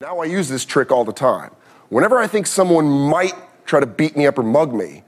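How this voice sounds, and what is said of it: Usual voice. Nothing is said of it.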